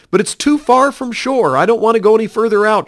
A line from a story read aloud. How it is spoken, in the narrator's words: pleaded